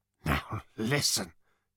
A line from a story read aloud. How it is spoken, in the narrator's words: said Ford nervously